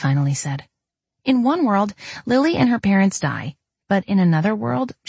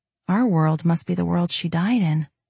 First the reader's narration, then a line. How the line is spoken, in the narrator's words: I said softly